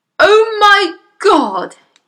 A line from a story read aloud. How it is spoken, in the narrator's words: yelled the father